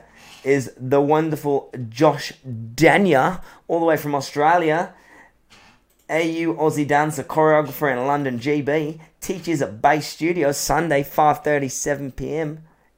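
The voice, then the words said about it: Put-on Australian accent, not bad. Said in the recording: “he doesn't speak like this, but is this a good Australian accent? ... Yeah, it's there. It's not bad.”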